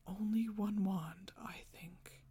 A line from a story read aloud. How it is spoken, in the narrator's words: he whispered